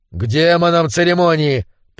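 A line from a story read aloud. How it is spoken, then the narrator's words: Grumbling. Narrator (Russian): проворчал Конан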